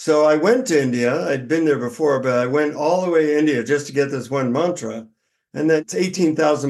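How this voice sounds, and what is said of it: Usual voice. Nothing is said of it.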